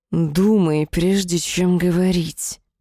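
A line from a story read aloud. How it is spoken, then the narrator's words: Hissed. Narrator (Russian): прошипел хаос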